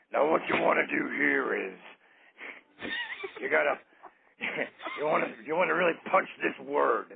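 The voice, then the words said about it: Vince McMahon impression. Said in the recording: “Vince McMahon impression”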